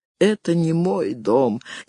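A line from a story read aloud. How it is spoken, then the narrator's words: Barely audible reply. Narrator (Russian): еле слышно отозвался Гарофолли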